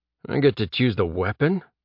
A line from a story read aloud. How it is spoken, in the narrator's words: Jeb muttered to himself